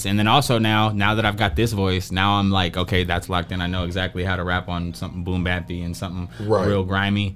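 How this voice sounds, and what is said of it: Nasal voice. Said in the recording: “my thing is nasally ... My voice is nasally”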